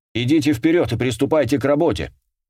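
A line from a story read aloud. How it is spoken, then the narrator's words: Shouted. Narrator (Russian): крикнул он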